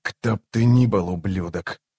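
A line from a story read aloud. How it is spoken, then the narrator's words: Whisper. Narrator (Russian): прошептал он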